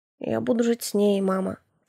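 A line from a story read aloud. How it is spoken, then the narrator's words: Quiet. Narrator (Russian): тихо проговорил сын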